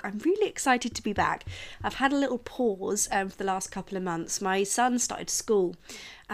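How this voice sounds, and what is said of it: Voice sounds unwell from illness. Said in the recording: “you can probably hear it in my voice still ... constantly having some sort of bug”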